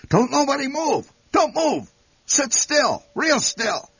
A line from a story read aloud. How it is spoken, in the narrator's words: Instantly, the old man shouted